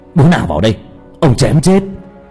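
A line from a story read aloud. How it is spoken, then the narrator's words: Roaring. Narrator (Vietnamese): Cậu gầm lên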